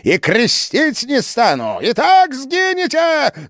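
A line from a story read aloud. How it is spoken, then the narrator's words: Yelling. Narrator (Russian): заорал Иоанн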